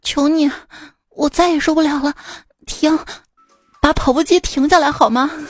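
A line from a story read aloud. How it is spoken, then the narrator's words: Breathless, exhausted pleading. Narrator (Chinese): 这女孩就大汗淋漓、喘息不止，甚至开始求饶了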